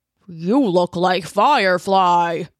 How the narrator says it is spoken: grumbled at her, like she was no more than an annoying fly whose buzzing was giving him a headache

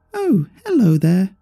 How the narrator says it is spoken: came a high-pitched, squeaky voice from the puppet resembling Eve

